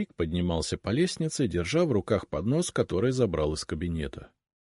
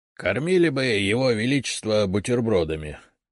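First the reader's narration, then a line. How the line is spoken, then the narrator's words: Good-natured grumble. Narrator (Russian): добродушно проворчал Игнат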